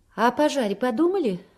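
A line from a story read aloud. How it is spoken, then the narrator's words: Very dry. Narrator (Russian): очень сухо продолжает Клава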